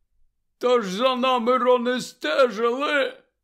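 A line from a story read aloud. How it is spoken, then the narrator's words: Hoarse explanation. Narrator (Ukrainian): хрипко пояснив він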